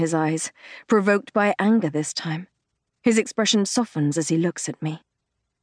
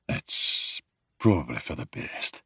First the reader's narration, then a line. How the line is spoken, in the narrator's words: he mutters